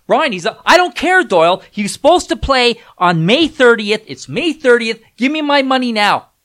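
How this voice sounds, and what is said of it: Yelling. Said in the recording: “I don't know why I'm yelling”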